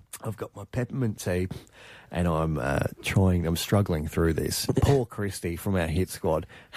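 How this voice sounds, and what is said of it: Hoarse, strained, failing voice. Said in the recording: “I'm losing my voice, mate. I'm losing my voice.”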